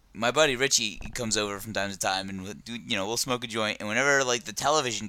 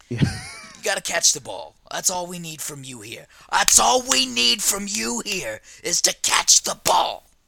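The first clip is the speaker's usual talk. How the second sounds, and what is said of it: Imitates another person's voice. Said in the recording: “That's my Denzel.”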